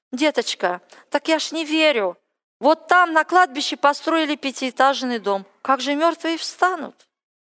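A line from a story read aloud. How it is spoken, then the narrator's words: Quiet whisper in ear. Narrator (Russian): Одна из моих родственниц, она была верующая, потихоньку мне на ухо шептала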